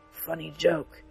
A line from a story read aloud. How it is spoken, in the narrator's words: muttered, coughing